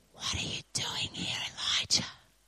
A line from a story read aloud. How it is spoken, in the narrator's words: the whispery voice says